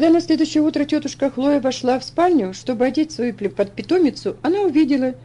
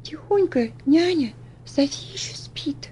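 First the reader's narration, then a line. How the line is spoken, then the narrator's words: Whisper. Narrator (Russian): прошептала Элси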